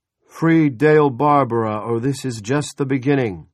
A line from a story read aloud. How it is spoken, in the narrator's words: an amplified voice bellowed